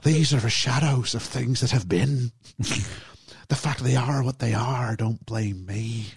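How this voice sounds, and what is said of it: Put-on Irish accent. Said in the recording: “I keep doing an Irish accent because I'm too used to hearing the Jim Carrey version.”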